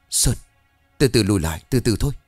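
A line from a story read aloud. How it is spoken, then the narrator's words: Frightened stammer. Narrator (Vietnamese): Đạt đứng hình, mồ hôi lăn dài trên má, miệng lắp bắp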